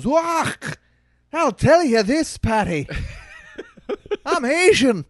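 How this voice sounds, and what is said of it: Put-on light Scottish accent. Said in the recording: “with a light Scottish accent ... I was so worried about doing an offensive Asian accent that I opted on the side of Scottish”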